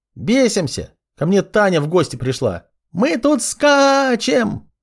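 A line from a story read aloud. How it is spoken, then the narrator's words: Very loud shriek. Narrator (Russian): Завизжала так сильно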